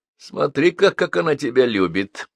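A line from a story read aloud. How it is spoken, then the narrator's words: Mocking. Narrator (Russian): насмешливо заметила княжна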